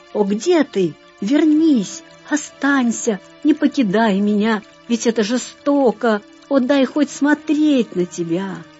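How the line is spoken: Frightened exclamation. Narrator (Russian): Со страхом воскликнул нарцисс

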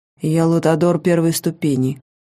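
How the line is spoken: Flat low voice. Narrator (Russian): бесстрастным низким голосом начал он

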